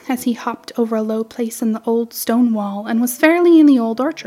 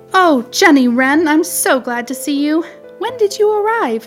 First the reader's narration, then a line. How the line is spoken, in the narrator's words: he cried